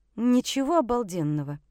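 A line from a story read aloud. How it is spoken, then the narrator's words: Seething through clenched teeth. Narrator (Russian): Я цедила сквозь зубы, чувствуя, как закипаю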